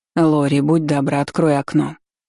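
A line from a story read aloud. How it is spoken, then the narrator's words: Tired request. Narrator (Russian): устало попросила Айролин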